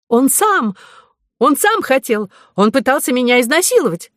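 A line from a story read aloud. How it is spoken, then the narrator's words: Scream. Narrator (Russian): закричала Ариадна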